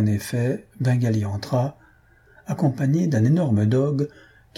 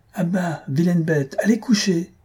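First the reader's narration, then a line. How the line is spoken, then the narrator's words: Shouted, mistress. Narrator (French): criait sa maîtresse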